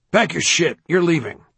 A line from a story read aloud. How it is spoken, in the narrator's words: a guard barked